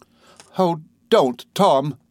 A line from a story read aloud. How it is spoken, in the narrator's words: cried Sophie